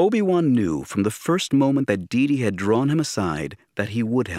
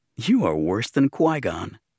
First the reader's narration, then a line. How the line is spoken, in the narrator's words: said in an amused tone